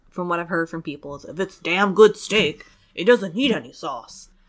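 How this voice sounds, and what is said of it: Impression of her husband. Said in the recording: “Are you talking about your husband? ... That was an awfully good impression, if so.”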